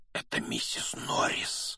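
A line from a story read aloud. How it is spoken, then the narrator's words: Breathed out. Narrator (Russian): выдохнул Рон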